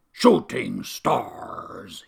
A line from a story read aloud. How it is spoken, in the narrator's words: he snapped